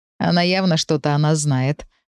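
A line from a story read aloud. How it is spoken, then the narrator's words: Laughing. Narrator (Russian): рассмеялся он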